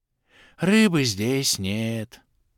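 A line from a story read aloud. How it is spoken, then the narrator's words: Sighing. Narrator (Russian): вздохнул Лохр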